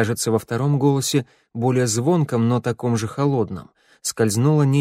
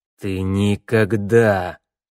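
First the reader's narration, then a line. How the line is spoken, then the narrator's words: Cold angry hiss through teeth. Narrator (Russian): процедил холодный злой голос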